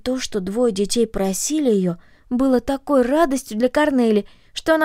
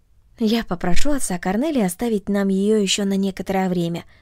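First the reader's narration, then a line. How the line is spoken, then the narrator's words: Plain. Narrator (Russian): сказала мать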